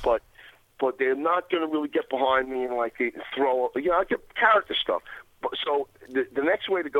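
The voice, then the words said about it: New York accent. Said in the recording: “I'm a New York type. I got the New York accent”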